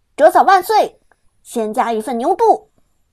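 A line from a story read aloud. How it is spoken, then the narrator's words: Excited shout. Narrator (Chinese): 刘思雨兴冲冲的喊道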